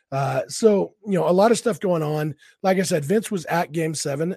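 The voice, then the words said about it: Sick, altered voice. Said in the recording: “I am sick as a dog today... my voice sounds a little bit different... This is just what I sound like when I'm sick”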